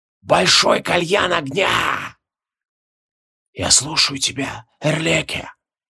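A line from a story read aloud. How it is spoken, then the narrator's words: Whispering spirit. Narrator (Russian): Шепотом откликнулся дух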